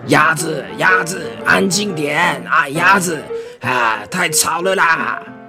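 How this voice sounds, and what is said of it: Loud shouting character voice. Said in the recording (Chinese): “青蛙也大吼”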